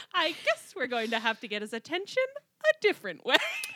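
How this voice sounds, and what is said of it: Tobias Funke impression. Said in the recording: “I can only hear this in a Tobias Funke voice.”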